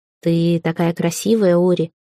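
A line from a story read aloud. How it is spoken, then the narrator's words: Tender close murmur. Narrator (Russian): ласково проговорил Литар прямо над ухом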